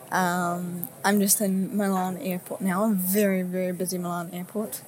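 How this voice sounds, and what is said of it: Tired-sounding voice. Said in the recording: “As you can probably tell from my voice, I'm pretty tired.”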